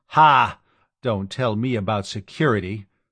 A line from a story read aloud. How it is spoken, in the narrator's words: Colonel Zaref barked